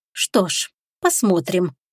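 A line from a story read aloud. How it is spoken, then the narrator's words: Muttered. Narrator (Russian): пробормотала она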